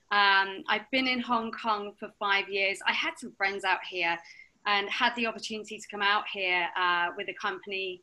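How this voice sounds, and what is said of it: Slightly southern English accent. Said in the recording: “your accent is obviously English ... I've got a slightly southern accent.”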